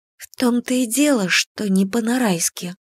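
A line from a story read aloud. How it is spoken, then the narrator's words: Grave whisper. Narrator (Russian): прошептала я, словно приговор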